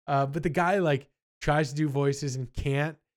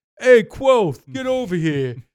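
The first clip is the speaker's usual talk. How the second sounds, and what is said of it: Put-on Jersey accent. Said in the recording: “He gives everybody a Jersey accent ... his normal reading is not like a Jersey”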